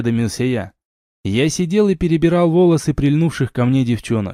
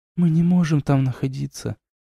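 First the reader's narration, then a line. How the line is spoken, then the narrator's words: Quiet, muffled. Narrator (Russian): тихо сказала Арна, уткнувшись лицом мне в плечо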